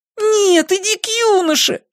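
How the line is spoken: Puppy exclaiming. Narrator (Russian): воскликнул щенок

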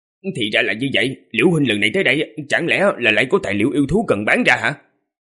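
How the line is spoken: Smiling, modest. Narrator (Vietnamese): Liễu Minh mỉm cười, khiêm tốn nói

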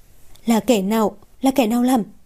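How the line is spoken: Shaken, halting. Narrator (Vietnamese): toàn thân run rẩy, mãi một hồi lâu mới lên tiếng được

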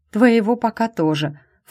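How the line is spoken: Snort. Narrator (Russian): фыркнула я

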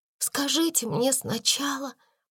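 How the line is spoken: Whisper. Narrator (Russian): прошептала Сара

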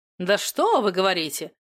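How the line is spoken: Skeptical snort. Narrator (Russian): скептически хмыкнул вредный друг

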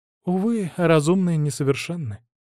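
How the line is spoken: Sighing, female. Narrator (Russian): вздохнула она

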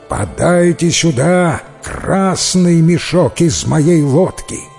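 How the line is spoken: Menacing shout with smirk. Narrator (Russian): Снова усмехнулся богач и снова закричал грозным голосом

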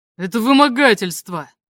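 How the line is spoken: Roared. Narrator (Russian): взревел он

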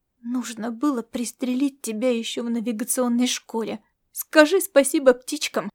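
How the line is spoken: Hiss. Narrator (Russian): прошипела девушка

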